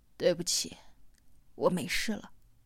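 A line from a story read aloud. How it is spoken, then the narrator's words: Hoarse voice. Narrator (Chinese): 四娃 沙哑着嗓子对王栋说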